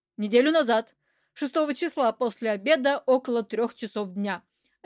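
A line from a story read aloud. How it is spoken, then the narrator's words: Crisp clipped delivery. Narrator (Russian): отчеканил директор фирмы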